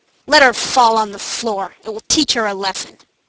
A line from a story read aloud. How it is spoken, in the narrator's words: the nurses roughly said